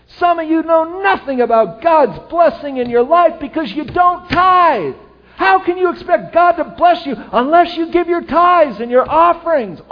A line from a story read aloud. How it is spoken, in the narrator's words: worked himself up into a good lather of sweat, yelling